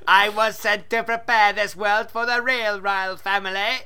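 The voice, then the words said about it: Robotic voice. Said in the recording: “talking like a robot”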